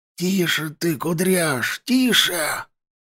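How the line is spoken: Hissed. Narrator (Russian): шипел Карпыч

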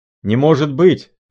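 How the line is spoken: Shouting. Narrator (Russian): кричал капитан

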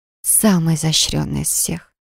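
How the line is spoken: Strained whisper. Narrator (Russian): прошептала, с трудом контролируя свои мысли и желания

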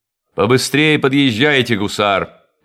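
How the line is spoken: Commanding shout. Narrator (Russian): повелительным тоном крикнул офицер

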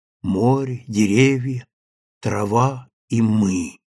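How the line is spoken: Low, hollow, unfamiliar voice. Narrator (Russian): сказала Сима низко и глухо, каким-то чужим голосом

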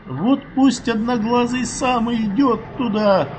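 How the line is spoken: Angry, tearful retort. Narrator (Russian): Зло уже сквозь слезы бросила она

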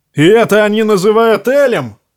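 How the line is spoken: Roaring. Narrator (Russian): взревел кто-то поблизости

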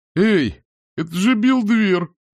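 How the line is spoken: Exclaiming. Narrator (Russian): воскликнула появившаяся из темноты фигура

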